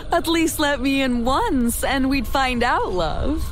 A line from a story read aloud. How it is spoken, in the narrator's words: She giggled and said